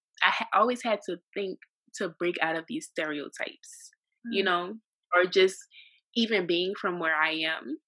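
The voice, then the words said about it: Strong New Orleans Louisiana accent. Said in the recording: “From New Orleans, Louisiana, and I know that I have a strong accent”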